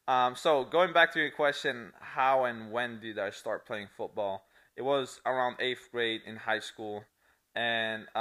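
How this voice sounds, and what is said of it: Italian accent. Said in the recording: “if you hear an accent, it's Italian”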